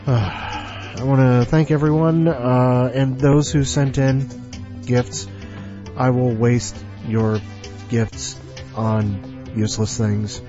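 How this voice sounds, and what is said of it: Congested, stuffed-up nasal voice. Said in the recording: “I'm just a big swaddled mess right now. You can hear it in my voice. Although my nose is usually stuffed up and nasal anyway.”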